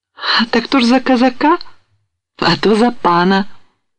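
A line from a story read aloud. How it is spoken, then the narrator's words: Happy smirk. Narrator (Russian): усмехнулась радостно девушка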